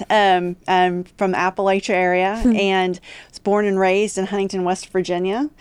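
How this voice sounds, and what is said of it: West Virginia Appalachian accent. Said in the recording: “I am from West Virginia, which I think is very noticeable from the accent.”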